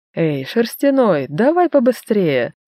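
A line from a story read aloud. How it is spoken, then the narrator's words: Laughing. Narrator (Russian): Засмеялась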